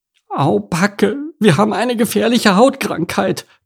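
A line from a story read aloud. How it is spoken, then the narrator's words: Shrieked. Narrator (German): kreischte Enno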